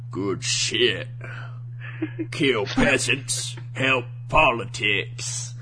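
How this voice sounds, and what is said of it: Put-on accent for a character. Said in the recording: “I'm going to give him my best accent, which he doesn't sound like at all”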